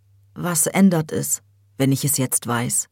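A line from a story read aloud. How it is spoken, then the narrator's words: Metallic voice, resuming. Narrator (German): setzte Hüseyin mit seiner metallischen Stimme wieder an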